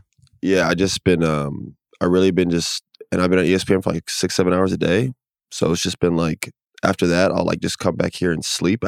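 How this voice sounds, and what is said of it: Slightly raspy, under-the-weather voice. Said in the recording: “I actually been under the weather ... hear it in my voice a little bit ... you do sound a little raspy”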